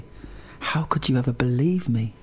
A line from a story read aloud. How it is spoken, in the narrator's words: she smiled and said softly